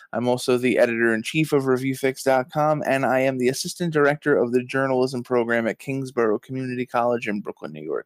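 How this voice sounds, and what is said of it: New York accent. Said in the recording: “do I detect a New York accent there?... Yes, born and raised in uh, good old Brooklyn, New York.”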